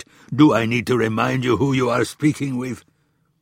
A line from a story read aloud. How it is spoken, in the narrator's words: in frustration barked